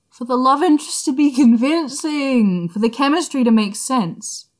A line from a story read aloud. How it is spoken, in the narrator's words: Nia Huaisang wailed